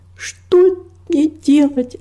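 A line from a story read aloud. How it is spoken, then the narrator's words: Sobbing. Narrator (Russian): разрыдалась она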